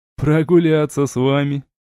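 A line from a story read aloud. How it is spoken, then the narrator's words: Laughing. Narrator (Russian): рассмеялся Джайд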